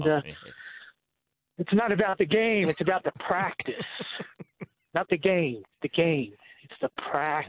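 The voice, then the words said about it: Imitates another person's voice. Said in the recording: “your impersonation was good ... let's hear from the man himself, Allen Iverson”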